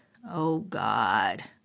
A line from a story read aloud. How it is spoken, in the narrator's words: groan